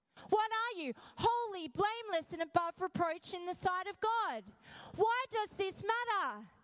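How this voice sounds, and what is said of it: Yelling loudly. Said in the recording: “Why am I yelling?”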